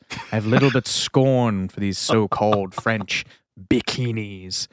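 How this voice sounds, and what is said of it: Orson Welles impression. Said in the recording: “doing the Orson Welles voice.”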